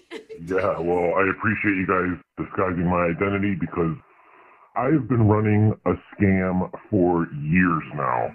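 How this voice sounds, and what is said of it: Electronically disguised voice. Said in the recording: “Your phone line's being run through the voice changer.”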